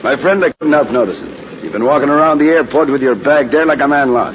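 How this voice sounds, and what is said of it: Irish accent. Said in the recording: “Okay, Irish. ... not with your accent, I'm afraid.”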